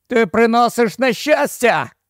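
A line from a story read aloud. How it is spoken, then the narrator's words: Shout. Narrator (Ukrainian): закричав Келвін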